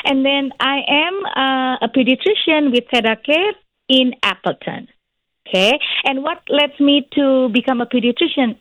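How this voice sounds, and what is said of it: Indonesian-accented English. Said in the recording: “I am originally from Indonesia ... It's just my accent stays”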